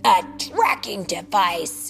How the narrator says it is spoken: the huge ape bellowed

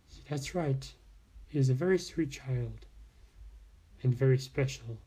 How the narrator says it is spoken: said Foxina

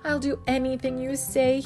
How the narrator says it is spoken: he begged

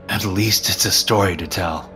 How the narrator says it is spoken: I chuckled weakly

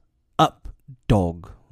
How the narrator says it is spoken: Mowgli cried

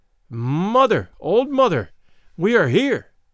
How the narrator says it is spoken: one of them cried out

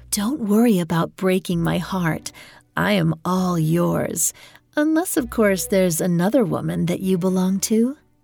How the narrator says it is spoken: cooed in his ear

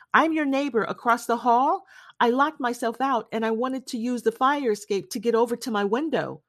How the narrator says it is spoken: From outside, shouted

